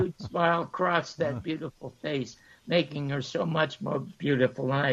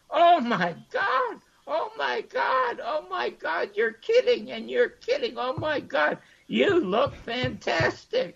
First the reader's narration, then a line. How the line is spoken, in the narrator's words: I screamed